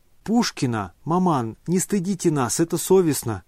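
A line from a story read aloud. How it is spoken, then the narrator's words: Exclamation. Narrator (Russian): воскликнула Аделаида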